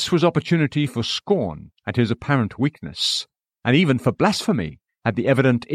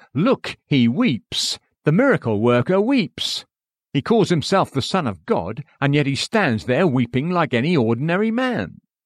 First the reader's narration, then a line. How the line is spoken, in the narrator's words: the Jews would sneeringly say